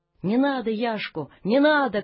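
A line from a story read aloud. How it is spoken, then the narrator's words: Shout from a crowd. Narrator (Russian): крикнуло из толпы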